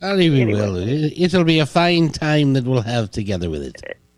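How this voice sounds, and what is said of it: Put-on Irish accent. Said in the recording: “that sounds like you're Irish there, honey... I do it in an Irish accent.”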